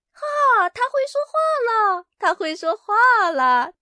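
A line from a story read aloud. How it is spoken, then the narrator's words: Calling out. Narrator (Chinese): 卡门叫道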